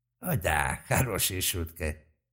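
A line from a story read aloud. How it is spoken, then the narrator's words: Old man's creaky laugh. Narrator (Russian): скрипуче рассмеялся старик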